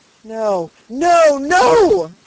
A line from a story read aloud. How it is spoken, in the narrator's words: cried the peddler in a voice and with a manner that startled Dunwoody